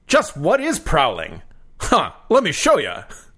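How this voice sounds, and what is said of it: Garfield voice, Rodney Dangerfield style. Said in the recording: “my Garfield voice ... I'm going for a little bit of a Rodney Dangerfield.”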